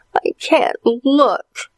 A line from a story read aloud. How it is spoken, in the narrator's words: whimpered his sister Allison